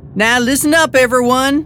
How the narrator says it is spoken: I hollered

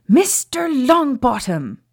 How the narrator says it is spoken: Professor McGonagall shouted

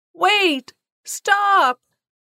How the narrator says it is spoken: Marian shouted

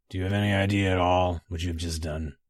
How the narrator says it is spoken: he said finally, flatly, coldly

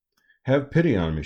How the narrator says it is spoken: cried

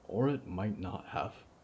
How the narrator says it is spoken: Byrne said quietly

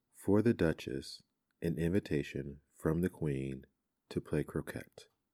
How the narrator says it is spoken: saying, in a solemn tone

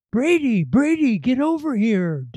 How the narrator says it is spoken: Digger was yelling

